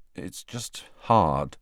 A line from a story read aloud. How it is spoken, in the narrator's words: Harry said finally in a low voice